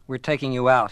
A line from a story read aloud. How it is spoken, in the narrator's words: he said flatly